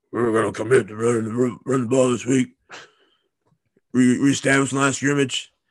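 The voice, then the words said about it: Poor imitation of another person's voice. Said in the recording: “That was my horrible. ... worst Coach O impression”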